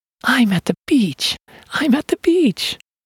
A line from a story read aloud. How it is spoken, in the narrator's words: happily declared